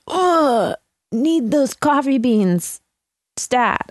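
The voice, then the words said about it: Imitates another person's voice. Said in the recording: “That's my impression of Jay. It's really good.”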